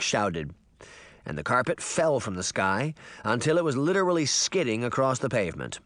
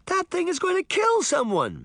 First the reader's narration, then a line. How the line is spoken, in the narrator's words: Sabrina shouted